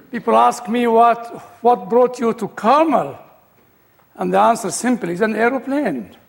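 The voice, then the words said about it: Egyptian British accent. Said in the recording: “my Egyptian British accent”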